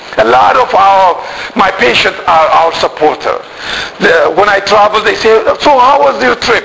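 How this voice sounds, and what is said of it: Speaks with a foreign accent. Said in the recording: “with my accent”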